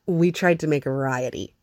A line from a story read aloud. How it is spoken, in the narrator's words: he says